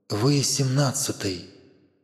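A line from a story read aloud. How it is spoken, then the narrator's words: Quiet. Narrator (Russian): он тихо добавил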